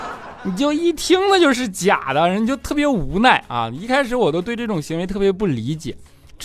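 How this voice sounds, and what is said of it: Usual voice. Nothing is said of it.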